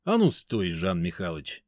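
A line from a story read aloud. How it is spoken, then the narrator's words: Sarcastic inner voice. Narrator (Russian): язвительно сказал мой внутренний голос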